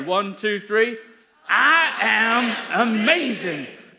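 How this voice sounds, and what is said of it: Put-on Texas accent. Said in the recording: “You can do it in the accent if you want. I find it has a lot more vigour ... It's a Texas accent, isn't it?”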